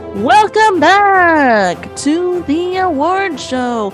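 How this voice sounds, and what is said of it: Announcer voice. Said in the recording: “That's my announcer voice.”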